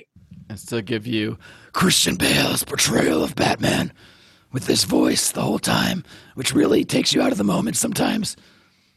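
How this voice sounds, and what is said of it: Slightly crusty, rough voice. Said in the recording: “my voice is a little crusty today”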